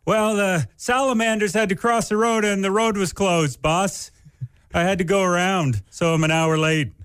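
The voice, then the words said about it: Put-on voice of someone lying. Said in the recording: “Why are you talking like that? ... Just a bad impression of someone lying.”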